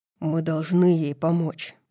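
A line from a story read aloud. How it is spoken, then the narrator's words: Growled. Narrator (Russian): прорычал он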